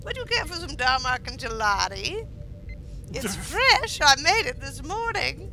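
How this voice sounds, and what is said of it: Put-on chef character voice. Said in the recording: “my Middle Eastern chef sounds a lot like Cookie Bacon Grandma ... I only have a couple of impressions that I then apply to everything”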